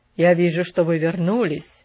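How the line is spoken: Plain. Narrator (Russian): сказал он

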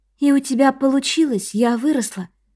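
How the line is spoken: Flat even tone. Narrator (Russian): сказала Чон Мин ровным тоном

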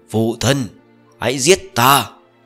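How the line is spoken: Roaring while laughing, crying. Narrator (Vietnamese): Ông ta đang cười, đang khóc, phát ra tiếng gầm thét

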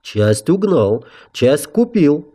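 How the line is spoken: Calm explanation. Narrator (Russian): спокойно пояснил Гарт

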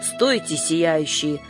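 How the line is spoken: Growling. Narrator (Russian): прорычал

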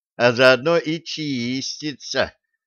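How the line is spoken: Mocking drawl. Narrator (Russian): насмешливо протянул Джим

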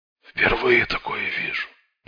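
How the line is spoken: Muttered. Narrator (Russian): пробормотал он наконец

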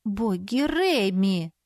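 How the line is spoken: Pleading. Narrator (Russian): взмолилась я

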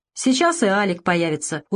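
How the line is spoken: Snide smirk. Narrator (Russian): усмехнулся ехидно Варламов

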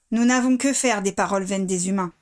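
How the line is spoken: Curt correction. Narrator (French): le reprit sèchement Bane

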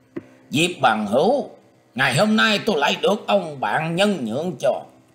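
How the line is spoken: Harsh loud shout. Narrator (Vietnamese): Quân Hải Thần bèn gằn giọng quát to lên rằng

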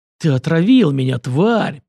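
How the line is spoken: Hissed. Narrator (Russian): прошипел Сеченов

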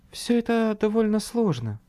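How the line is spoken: Sighing. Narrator (Russian): вздохнула она

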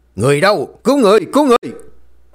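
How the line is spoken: Screaming cry. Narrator (Vietnamese): Tiếng thét

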